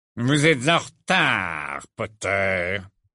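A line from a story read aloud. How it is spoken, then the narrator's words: Icy voice. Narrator (French): dit Rogue d'une voix glaciale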